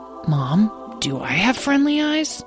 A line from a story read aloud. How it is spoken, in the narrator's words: whispered Lyle